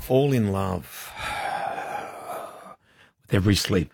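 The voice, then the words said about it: Sexy, sultry put-on voice. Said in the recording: “That was a weird noise. ... That was my sexy, sultry voice.”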